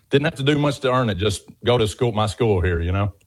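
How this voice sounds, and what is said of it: Southern American accent. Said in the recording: “clearly a Southern gentleman. You have a beautiful accent.”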